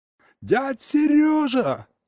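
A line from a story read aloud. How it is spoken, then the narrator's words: Yelling. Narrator (Russian): заорал я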